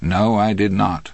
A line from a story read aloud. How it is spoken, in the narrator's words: Andy answered